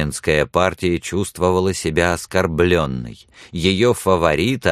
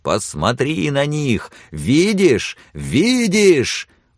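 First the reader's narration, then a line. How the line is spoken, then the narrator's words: Shouting. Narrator (Russian): все время кричал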